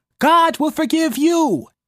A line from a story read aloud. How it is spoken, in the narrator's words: I shout it until I cannot remember who my words are meant for